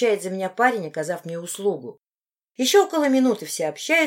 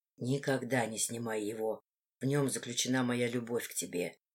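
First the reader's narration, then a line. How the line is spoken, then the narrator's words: Whisper. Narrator (Russian): он шептал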